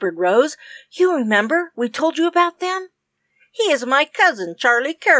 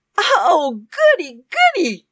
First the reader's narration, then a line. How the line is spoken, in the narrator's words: cried Rose